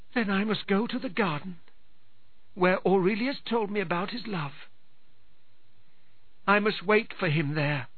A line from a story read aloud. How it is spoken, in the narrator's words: answered Dorigon sadly